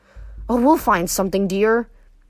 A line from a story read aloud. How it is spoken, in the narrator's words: my mother sighed